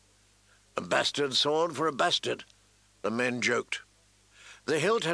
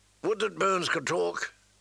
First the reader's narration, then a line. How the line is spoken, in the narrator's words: the old bear grumbled